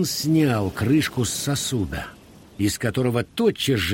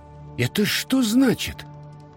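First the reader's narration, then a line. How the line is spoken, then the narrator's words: Exclaimed. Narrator (Russian): воскликнул рыбак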